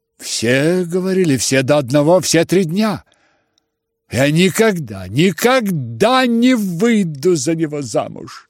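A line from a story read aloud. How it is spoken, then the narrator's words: Shouted through bitter tears. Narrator (Russian): Прокричав это, Аглая залилась горькими слезами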